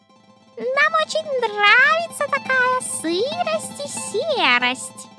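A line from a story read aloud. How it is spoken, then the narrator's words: Thin squeaky voices. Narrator (Russian): запищали тонкими голосками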